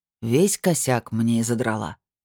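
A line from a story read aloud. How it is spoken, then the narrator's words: Sigh. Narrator (Russian): вздохнул Эол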